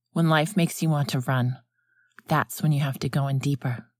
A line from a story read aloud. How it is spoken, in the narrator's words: Alan said, and his tone was gentler now